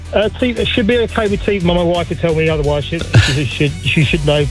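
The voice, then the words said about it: English Kent accent. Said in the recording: “a Kent man from Kerry ... 25 years and the Kent accent is still true. I can hear it.”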